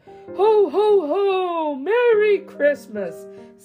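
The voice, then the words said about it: Santa Claus voice. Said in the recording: “in his best Santa voice.”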